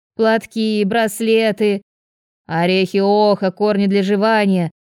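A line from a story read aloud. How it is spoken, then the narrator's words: Monotone. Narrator (Russian): Подхватила я монотонным голосом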